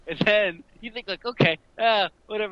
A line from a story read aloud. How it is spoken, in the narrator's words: they called out the joke